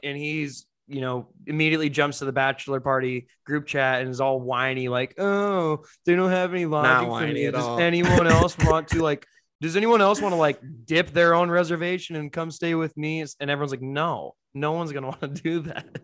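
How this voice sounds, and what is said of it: Imitates another person's whiny voice. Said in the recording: “It's a good impersonation of me. ... I do my Jacob Newton impression.”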